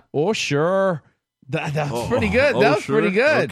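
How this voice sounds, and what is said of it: Put-on Minnesota accent. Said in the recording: “That was my Minnesota accent ... The Minnesota guy.”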